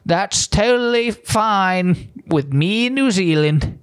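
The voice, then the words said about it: Attempted New Zealand accent. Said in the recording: “I wish I could do a New Zealand accent.”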